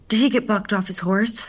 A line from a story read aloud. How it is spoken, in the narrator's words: gasped